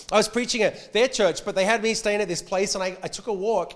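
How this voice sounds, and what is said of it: Blended Australian-American accent. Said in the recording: “my accent's changed. I'm in no man's land now. I sound kind of Australian to Americans and American to Australians ... I'm blended ... a hybrid”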